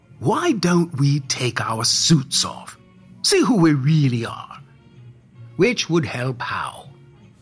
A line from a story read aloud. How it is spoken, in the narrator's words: Santa inquired testily